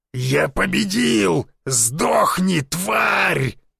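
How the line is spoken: Triumphant distorted yell. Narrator (Russian): заорал не своим голосом Мышкин, празднуя победу

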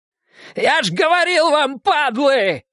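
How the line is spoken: Yelled. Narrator (Russian): заорал

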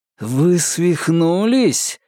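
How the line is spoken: Furious, through gritted teeth. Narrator (Russian): с яростью процедил он

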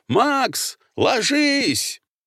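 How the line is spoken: Sudden yell. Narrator (Russian): внезапно Корнеев заорал

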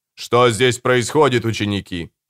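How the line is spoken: Stern question. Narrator (Russian): строго спросил Нимма

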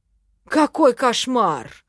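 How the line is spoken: Theatrical exclamation. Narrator (Russian): воскликнул хорек, наигранно схватившись за сердце

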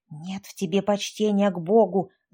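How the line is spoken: Hissing. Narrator (Russian): зашипела Лизавета

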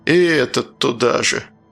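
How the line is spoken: Grumbled. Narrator (Russian): проворчал надзиратель

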